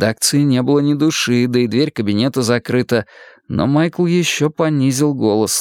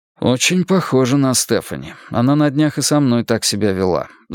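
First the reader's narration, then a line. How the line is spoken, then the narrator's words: Sighing. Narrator (Russian): вздохнул я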